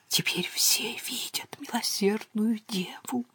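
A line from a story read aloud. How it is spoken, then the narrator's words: Whisper. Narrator (Russian): прошептал Торнебю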